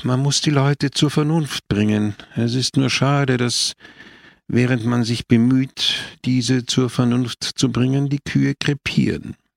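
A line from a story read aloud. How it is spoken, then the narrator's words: Sigh. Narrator (German): seufzte Don Camillo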